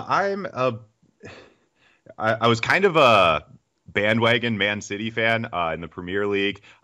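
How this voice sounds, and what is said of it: American accent. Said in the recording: “Certainly am American, as you can tell by my accent”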